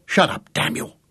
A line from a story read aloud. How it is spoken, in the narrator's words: hissed Gareth